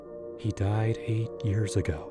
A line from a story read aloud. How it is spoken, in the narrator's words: I whispered to myself, like a mantra, trying to shake off the chill that crept up my spine